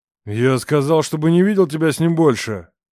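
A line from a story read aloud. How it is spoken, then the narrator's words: Startling furious roar. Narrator (Russian): Взревел Роман так, что даже я вздрогнула и напряглась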